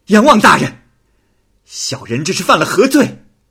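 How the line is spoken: Loud question. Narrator (Chinese): 席方平大声的问道

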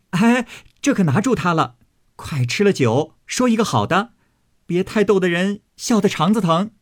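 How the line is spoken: Group laughing together. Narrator (Chinese): 众人齐笑道

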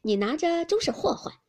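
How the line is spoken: Laughing. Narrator (Chinese): 笑道

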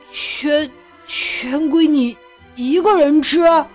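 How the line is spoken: Stammering question. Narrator (Chinese): 亨利结结巴巴的问

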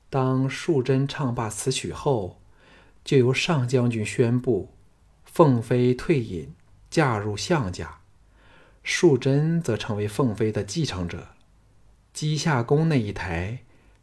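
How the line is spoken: Low voice. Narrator (Chinese): 凤飞 低声说

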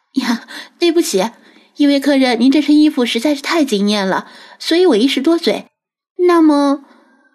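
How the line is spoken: Embarrassed, ingratiating. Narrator (Chinese): 店小二也很不好意思，赶紧陪笑 说道

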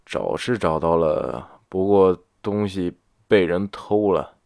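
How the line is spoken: Muttering. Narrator (Chinese): 李安嘟囔着

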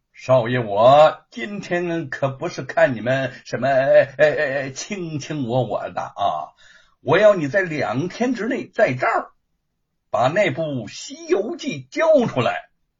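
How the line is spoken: Threatening, amid wild laughter. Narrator (Chinese): 狂笑声中，罗庞 对吴承恩威胁道

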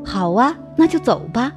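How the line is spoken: Silly chuckle. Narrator (Chinese): 高伟又像傻子一样呵呵一笑

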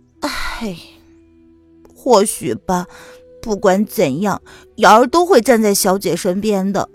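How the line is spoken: Heavy sigh. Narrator (Chinese): 瑶儿重重的叹了口气

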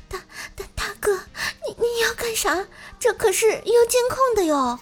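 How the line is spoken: Frightened, trembling woman. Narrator (Chinese): 女上司满脸惊恐，声音颤抖地说

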